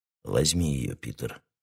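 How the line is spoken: Quiet. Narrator (Russian): тихо сказал король

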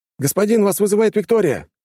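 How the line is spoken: Shout. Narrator (Russian): крикнул пилот

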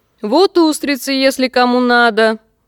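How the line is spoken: Loud. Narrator (Russian): громко сказала Кэт

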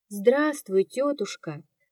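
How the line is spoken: Quiet, sick woman. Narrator (Russian): сказала тихо больная

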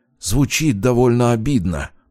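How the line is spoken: Muttering. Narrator (Russian): буркнул Полиньяк

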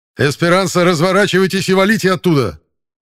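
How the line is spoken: Alarmed shout. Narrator (Russian): Тревожно крикнул капитан

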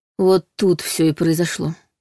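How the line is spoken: Gloomy. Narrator (Russian): мрачно сказал Андрей

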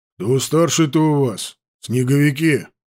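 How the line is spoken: Bewildered deep bass. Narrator (Russian): С недоумением пробасил гусарский ротмистр, в удивлении

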